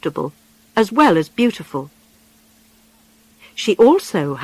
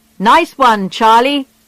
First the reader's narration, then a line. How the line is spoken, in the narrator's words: they shouted when they heard the news